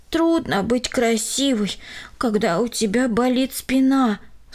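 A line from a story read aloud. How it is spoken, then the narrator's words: Sighing. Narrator (Russian): вздохнула она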